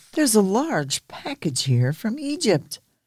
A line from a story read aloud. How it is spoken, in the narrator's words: he cried